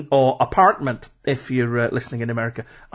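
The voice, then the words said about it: Poor put-on American accent. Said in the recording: “I can only apologise for that terrible accent. ... The last thing I want to do is offend Americans.”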